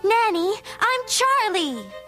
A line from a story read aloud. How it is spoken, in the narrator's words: said in a loud, angry voice